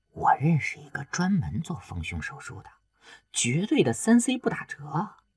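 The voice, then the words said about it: Quiet, coaxing low voice. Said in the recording (Chinese): “小声的撺掇着”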